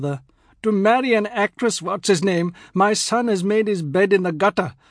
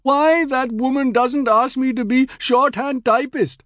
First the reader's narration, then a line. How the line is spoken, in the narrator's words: Pia wailed